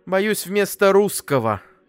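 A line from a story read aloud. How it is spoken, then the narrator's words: Mother's heavy sigh. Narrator (Russian): тяжело выдохнула мама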